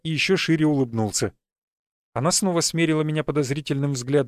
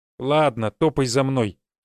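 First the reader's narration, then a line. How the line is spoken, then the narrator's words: Grumpy mutter. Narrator (Russian): недовольно буркнула хозяюшка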